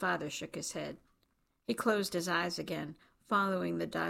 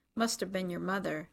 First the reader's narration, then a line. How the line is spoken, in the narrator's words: his father said